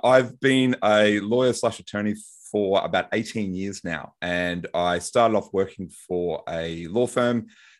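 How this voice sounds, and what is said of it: Australian accent. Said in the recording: “for those of you might recognize my accent, I'm from Brisbane, Australia”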